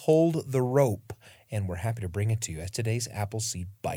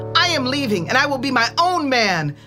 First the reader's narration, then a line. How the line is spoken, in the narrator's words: the young man yelled